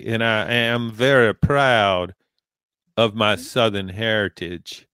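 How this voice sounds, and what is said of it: Put-on Southern US accent. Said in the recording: “my Southern accent ... bust out the accent ... yours is, I like yours. It's good.”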